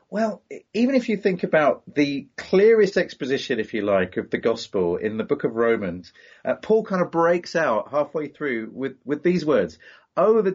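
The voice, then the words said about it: British accent. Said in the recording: “He comes all the way from the UK ... I love your accent”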